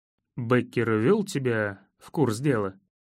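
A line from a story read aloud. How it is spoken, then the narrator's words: Plain. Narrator (Russian): спросил я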